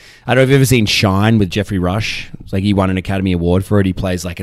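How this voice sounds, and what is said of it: Usual voice. Nothing is said of it.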